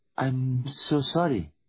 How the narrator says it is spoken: said Priya

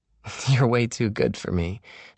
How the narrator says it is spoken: she said, but she laughed

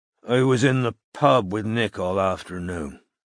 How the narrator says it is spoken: he said thickly

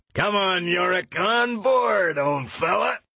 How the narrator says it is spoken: yelled Lee Scoresby

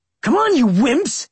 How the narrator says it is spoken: He shouted at Mitchell and Wade

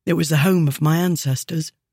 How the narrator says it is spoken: Hazan said quietly

